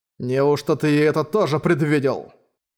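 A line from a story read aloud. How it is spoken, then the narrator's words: Cold question. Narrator (Russian): Холодно спросил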